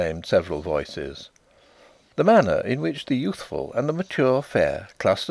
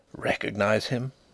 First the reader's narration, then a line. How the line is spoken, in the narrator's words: Denry whispered to his wife